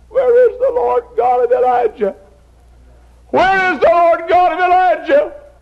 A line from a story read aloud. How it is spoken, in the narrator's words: prayed and cried